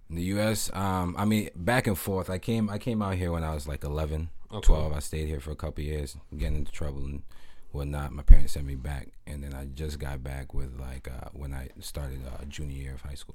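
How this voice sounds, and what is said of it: Raspy voice. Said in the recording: “that raspy voice”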